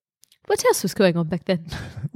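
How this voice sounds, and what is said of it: Put-on British accent. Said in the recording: “Do it in a British voice.”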